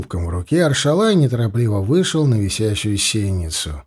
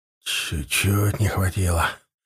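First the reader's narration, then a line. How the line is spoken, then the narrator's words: Mumbling. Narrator (Russian): пробормотал Аршалай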